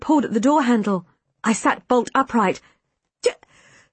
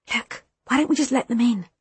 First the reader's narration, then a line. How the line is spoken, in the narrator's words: I whispered